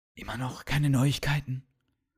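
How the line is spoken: Whisper. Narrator (German): flüsterte der Kommandant zu einem der Wachposten

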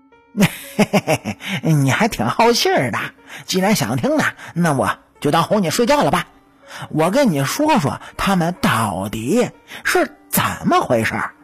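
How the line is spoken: Chuckling. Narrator (Chinese): 黄天仇笑了一声，就说

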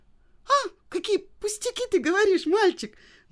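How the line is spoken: Exclamation. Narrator (Russian): воскликнула Женя

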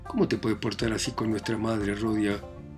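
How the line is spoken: Indignant murmur. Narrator (Spanish): murmuró indignada

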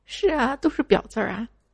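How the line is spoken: Crying. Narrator (Chinese): 小明边哭边说

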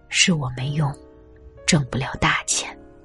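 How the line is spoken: Low sighing. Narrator (Chinese): 爸爸在房间里低声叹气

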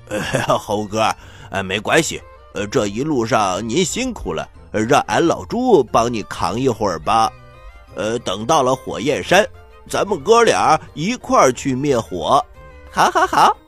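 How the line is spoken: Smiling. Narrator (Chinese): 牛魔王变的八戒笑了笑

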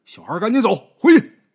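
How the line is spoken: Sudden shout. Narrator (Chinese): 突然间有一个拉网的人喊

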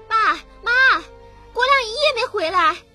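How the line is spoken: Young wife yelling outside. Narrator (Chinese): 新媳妇李慧杰在屋门外大喊大叫

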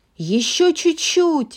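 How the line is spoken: Squealing. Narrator (Russian): визжала Анна

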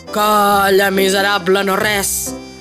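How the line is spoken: Pine tree grumbling angrily. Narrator (Catalan): rondinà el pi

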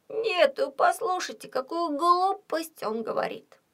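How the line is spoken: Groaning. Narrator (Russian): простонал он

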